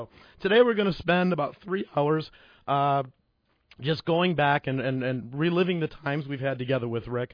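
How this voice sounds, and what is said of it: Hoarse, strained voice. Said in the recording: “I'm losing my voice ... when my voice is gone”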